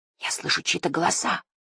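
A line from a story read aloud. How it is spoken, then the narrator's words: Whisper. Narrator (Russian): прошептала она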